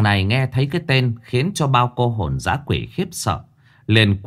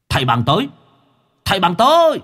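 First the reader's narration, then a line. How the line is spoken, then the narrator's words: Sudden shout. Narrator (Vietnamese): Đột nhiên có cái tiếng hét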